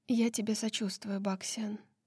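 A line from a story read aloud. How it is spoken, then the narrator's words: Quiet, surprised. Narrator (Russian): Лидия удивленно моргнула, потом тихо сказала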